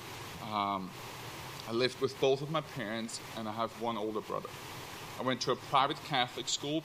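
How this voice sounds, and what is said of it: Austrian-accented English. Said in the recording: “raised in Vienna, Austria, so that's where the weird accent is coming from”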